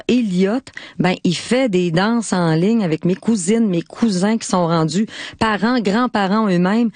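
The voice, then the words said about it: Quebec French accent, Lac-Saint-Jean. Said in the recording (French): “mon accent du Lac-Saint-Jean”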